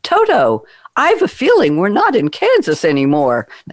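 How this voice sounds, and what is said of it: Poor imitation of another person's voice. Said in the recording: “that's a terrible Judy Garland impersonation.”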